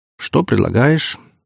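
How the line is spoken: Dejected question. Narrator (Russian): упавшим голосом спросил

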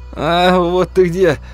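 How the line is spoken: Relieved exhale. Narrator (Russian): Сосед облегченно выдохнул

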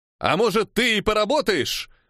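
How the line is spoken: Shouted back. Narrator (Russian): выкрикнул я в ответ

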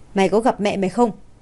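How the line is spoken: Very cold voice. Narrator (Vietnamese): Giọng của Hạ Lập Nguyên rất lạnh lùng

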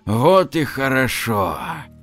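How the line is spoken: Relieved sigh. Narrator (Russian): С облегчением вздохнул Валера

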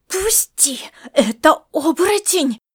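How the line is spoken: Frenzied hiss. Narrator (Russian): прошипела Маришка, вошедшая в раж

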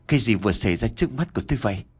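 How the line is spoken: Trembling mutter. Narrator (Vietnamese): Nam miệng lẩm bẩm nói đầy run rẩy

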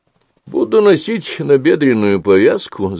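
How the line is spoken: Laughing. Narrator (Russian): засмеялся Тимофей

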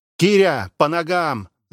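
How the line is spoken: Yelling. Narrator (Russian): заорал сержант

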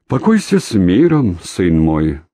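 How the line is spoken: Deep voice mimicking priestly chant. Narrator (Russian): пробасил, пародируя речитатив священника

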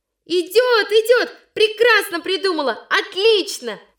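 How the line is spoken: Girls shouting. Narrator (Russian): снова закричали девочки

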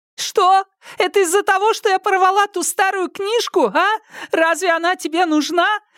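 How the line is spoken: Tearful wailing. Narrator (Russian): со слезами вопила Лю Сяо Хун

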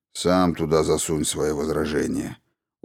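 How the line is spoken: Weary advice. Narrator (Russian): устало посоветовал ему Кальбейн, нач сектора

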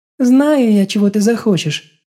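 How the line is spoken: Restrained giggle. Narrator (Russian): сдержанно хихикнула крестная

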